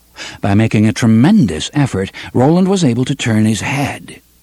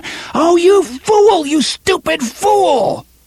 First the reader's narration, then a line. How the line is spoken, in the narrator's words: From a great distance, he heard Alain scream